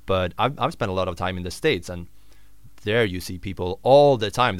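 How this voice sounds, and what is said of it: Swedish accent. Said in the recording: “I'm not Irish. I am Swedish. That's why you might hear probably a different accent than what you're used to hear here.”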